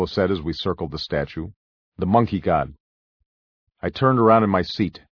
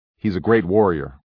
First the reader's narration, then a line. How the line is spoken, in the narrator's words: Lolo said firmly